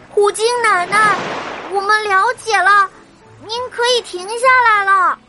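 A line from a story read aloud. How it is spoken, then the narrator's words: Hurried loud shout. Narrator (Chinese): 真正连忙大声的喊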